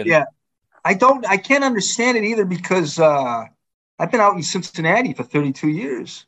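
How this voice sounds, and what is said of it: Thick Boston accent. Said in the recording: “your thick Bostonian accent ... It's just that Jamar or anything that ends in R that your accent comes out.”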